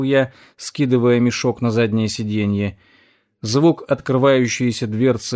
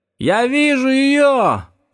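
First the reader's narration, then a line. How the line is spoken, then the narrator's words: Shout. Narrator (Russian): прокричал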